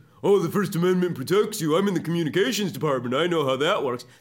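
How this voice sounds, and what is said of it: Facetious, mocking taunting voice. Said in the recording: “That's her doing a voice, like the facetious voice, like the "I know you are, but what am I" voice.”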